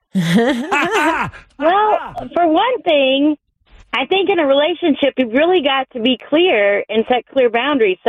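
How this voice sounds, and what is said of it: Southern Kentucky-style American accent. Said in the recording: “this accent, I'm obsessed with... your accent is so good... I expected a little further south... I lived right on the border of Kentucky”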